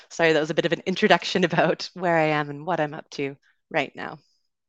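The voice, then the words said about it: Canadian English accent. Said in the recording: “you will be hearing a Canadian accent”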